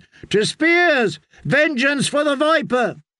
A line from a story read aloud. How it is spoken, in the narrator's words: a third of them were shouting